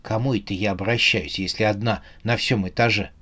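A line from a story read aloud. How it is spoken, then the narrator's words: Whispered. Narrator (Russian): прошептала Белка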